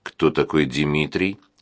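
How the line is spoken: Plain. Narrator (Russian): спросил он

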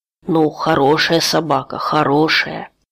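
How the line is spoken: Embarrassed mumbling. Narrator (Russian): бормотал смущенный Реми

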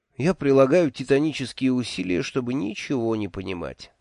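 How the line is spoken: Sigh. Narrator (Russian): вздохнул я

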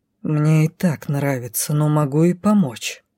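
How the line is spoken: Hissed. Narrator (Russian): не сказал, прошипел повелитель

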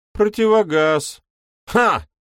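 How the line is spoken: Loud bark. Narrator (Russian): гаркнул Кенворти

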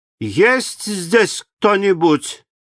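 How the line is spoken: Frightened shout. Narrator (Russian): испугавшись одиночества, я крикнула

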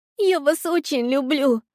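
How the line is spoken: Girl sobbing. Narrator (Russian): продолжала всхлипывать девочка

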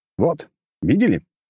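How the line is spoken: Shout. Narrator (Russian): крикнул я

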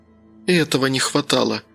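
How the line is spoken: Groaning. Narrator (Russian): простонала Аня

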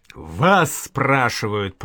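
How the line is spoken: Roaring over cursing. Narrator (Russian): проревел Данила Щеня, гася явную ругань игумена

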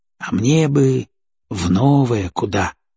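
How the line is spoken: Dreamy drawl. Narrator (Russian): мечтательно протянул он

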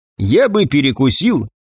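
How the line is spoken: Cheerful. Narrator (Russian): бодро высказался универсал

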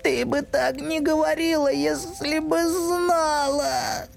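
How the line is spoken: Sobbing. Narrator (Russian): отвечал мистер Тумнус между всхлипами

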